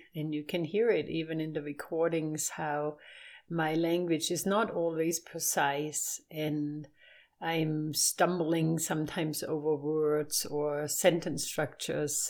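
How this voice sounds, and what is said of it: Strong German accent. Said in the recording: “I'm a native German speaker... everybody can hear my accent quite strongly”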